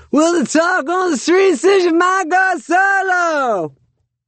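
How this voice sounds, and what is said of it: Poor sung imitation of another person's voice. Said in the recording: “best shitty Tom Petty impression”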